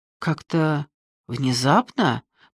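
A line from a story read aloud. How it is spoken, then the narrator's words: Muttered. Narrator (Russian): пробормотал я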